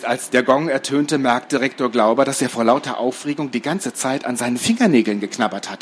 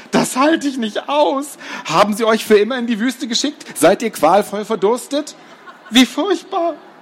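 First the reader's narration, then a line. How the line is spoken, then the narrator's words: Groaning. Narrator (German): stöhnte er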